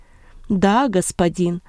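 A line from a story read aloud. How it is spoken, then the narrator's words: Plain. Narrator (Russian): ответил Марк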